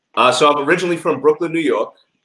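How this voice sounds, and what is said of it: New York accent. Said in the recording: “What is your accent? ... Oh, I hear the New York.”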